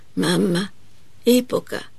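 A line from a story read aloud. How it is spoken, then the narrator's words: Faint whisper. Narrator (Italian): sussurra ancora con un filo di voce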